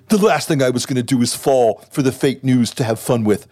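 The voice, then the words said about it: Donald Trump impression, Alec Baldwin-like. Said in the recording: “I'm going to do the tweet in the Trump voice ... You sound like Alec Baldwin ... All Trump imitations are basically imitations of Alec Baldwin imitating Trump”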